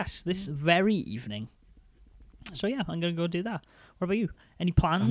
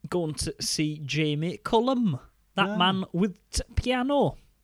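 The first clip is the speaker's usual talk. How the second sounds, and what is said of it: Put-on Yorkshire accent. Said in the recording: “talking like a Yorkshireman”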